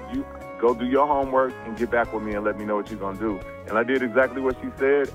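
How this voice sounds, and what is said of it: Good radio broadcasting voice. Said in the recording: “you do have a radio voice ... you got a good little voice for broadcasting”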